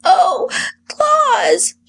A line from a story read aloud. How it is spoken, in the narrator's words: she cried with rapture